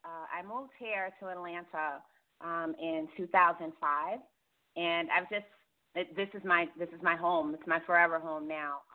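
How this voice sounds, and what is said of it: New York accent. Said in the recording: “I'll always have my New York roots. Can't ever shake this accent.”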